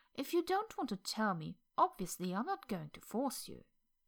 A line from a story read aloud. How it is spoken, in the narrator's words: Lan Xishen said cheerfully